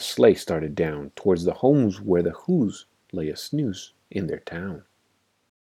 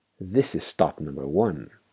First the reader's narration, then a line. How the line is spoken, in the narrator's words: the old Grinch Claus hissed